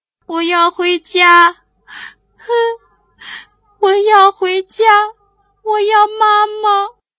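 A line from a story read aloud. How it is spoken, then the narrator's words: Crying, whining. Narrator (Chinese): 小象一面哭一面嚷嚷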